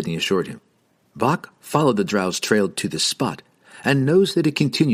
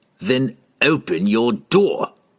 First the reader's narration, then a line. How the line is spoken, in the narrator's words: Entreri sneered